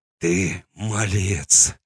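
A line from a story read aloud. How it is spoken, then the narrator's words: Hoarse wheeze. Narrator (Russian): прохрипел он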